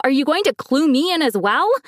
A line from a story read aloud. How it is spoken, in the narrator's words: I screamed in anger